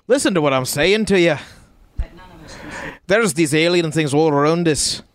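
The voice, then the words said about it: Slight put-on Scottish accent. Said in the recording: “He let a little bit of that Scottish accent out.”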